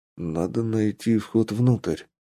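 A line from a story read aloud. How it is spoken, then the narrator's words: Whispered reminder. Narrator (Russian): напомнил я шепотом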